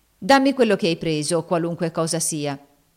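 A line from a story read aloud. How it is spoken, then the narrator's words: Firm voice. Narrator (Italian): disse Ofelia con voce ferma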